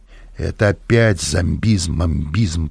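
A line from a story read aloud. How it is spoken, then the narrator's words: Grumble. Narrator (Russian): проворчал я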